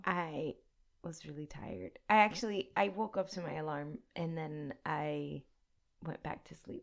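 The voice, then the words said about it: Raspy voice. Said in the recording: “I have a raspy voice today ... You have your sexy voice today”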